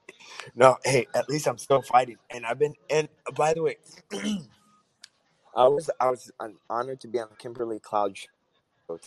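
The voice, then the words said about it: Hoarse, sick-sounding voice. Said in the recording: “Sounds like you're a little under the weather ... I seem like I got like hoarse. I sound like I've got COVID.”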